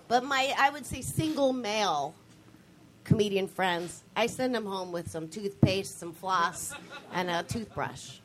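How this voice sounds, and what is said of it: Cutesy, girlish voice. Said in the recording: “Sometimes my voice gets a little cutesy.”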